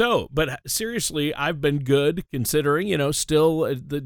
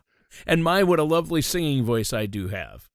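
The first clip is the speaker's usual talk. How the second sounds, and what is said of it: Sarcastic tone. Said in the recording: “I'm being sarcastic.”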